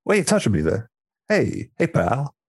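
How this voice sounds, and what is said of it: New York accent character voice. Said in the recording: “a New York accent. Yeah, he's Bruce, he's Bruce Willis.”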